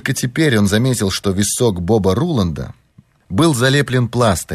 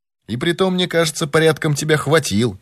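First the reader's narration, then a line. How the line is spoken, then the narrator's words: Exclaiming. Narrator (Russian): воскликнул сыщик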